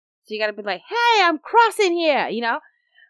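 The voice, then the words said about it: Put-on New Jersey accent. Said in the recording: “that your impression of the New Jersey accent? ... Sorta. ... Or was that more New York?”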